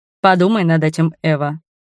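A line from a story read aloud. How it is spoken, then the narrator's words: Stern. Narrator (Russian): строго сказал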